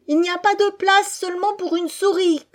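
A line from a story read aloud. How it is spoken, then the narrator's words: Woman's shrill cry. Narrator (French): cria d'une voix aiguë la femme d'un cultivateur aisé, jatte hindou du riche district de Jullundur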